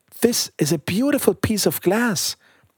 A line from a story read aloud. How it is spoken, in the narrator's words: cried the little girl